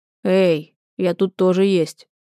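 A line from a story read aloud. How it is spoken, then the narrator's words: Hoarse rasp. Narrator (Russian): хрипит Булат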